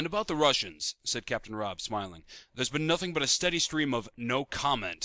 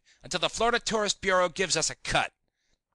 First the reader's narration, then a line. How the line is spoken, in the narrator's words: snapped Kingsley